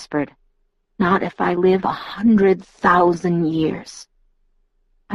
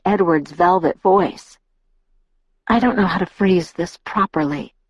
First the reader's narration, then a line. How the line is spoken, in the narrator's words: Edward said, and his tone was bleak